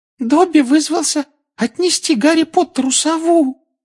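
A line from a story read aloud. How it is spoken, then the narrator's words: Adoring squeak. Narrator (Russian): с обожанием на лице пропищал эльф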